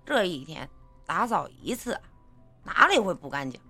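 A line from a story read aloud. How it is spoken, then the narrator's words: Mumbling with full mouth. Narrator (Chinese): 他夹了一个饺子塞进嘴里，咕哝的说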